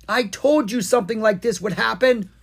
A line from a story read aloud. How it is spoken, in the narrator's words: Owen yelled